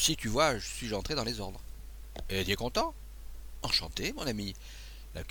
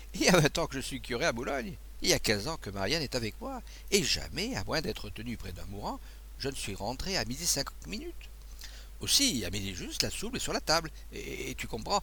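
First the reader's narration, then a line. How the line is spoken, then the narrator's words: Priest laughing. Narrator (French): dit en riant l'abbé Rémy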